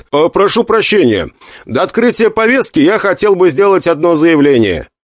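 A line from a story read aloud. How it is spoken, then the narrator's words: Loud. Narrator (Russian): громко сказал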